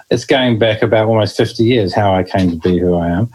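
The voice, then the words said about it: New Zealand accent. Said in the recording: “you can probably notice the accent. I do come from New Zealand originally”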